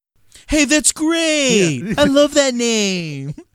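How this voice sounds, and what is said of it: Impression of Gutenberg. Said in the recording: “what a good impression of Gutenberg”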